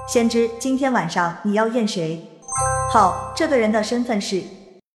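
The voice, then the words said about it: Gloomy, sinister narrator voice. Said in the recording (Chinese): “阴沉的声音说道”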